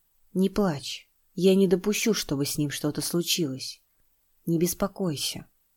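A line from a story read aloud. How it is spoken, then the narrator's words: Quiet, without hesitation. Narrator (Russian): Ни секунды не сомневаясь, он тихо сказал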